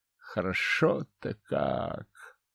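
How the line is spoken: Contented groan, stretching. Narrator (Russian): Довольно простонал, потягиваясь

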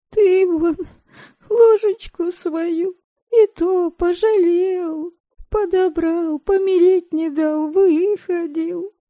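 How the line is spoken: Wheezing. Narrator (Russian): всхрипывала Девляна

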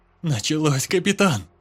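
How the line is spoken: Frightened. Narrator (Russian): Испуганно проговорил Летеха

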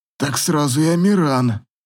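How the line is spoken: Hoarse voice. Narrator (Russian): сипло заговорил Дастиан

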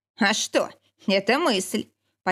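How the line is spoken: Mocking chuckle. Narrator (Russian): Почти глумливо хохотнул Никита

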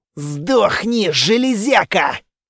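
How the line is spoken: Growling. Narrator (Russian): прорычал я

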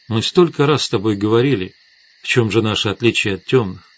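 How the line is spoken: Quiet. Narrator (Russian): тихо сказала Светлана

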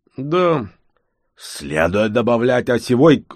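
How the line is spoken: Growl. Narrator (Russian): рыкнул Кенгш

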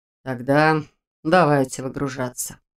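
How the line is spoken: Sighing. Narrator (Russian): вздохнул он

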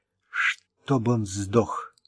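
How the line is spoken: Muttered. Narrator (Russian): пробормотала Ренни

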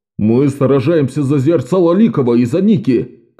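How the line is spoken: Group of fighters shouting. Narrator (Russian): кричали бойцы

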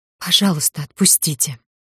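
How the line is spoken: Strangled whisper. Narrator (Russian): прошептала сдавленно

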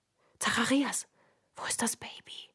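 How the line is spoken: Whispered. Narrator (German): flüsterte

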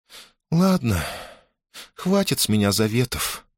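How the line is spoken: Sad. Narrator (Russian): печально проговорила Мадинка

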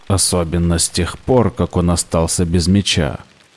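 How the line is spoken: Grumbling. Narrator (Russian): проворчал Зет

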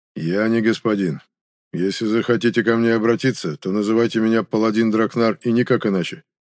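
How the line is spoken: Dull, flat repetition. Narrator (Russian): глухо повторил орденец

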